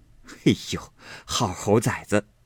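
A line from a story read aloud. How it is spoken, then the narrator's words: Laughing scolding. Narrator (Chinese): 那柳家的笑骂道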